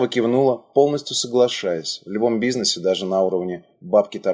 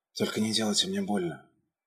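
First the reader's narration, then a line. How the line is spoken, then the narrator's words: Faint whisper, fading out. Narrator (Russian): успела шепнуть, проваливаясь в обморок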